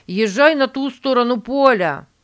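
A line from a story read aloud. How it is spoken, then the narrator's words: Shout. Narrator (Russian): крикнул Стивен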